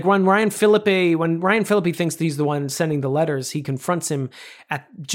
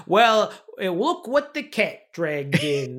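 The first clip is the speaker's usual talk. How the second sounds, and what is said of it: Imitates another person's odd accent. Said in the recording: “he's got this accent ... where are you from suddenly? What is this accent work you're doing?”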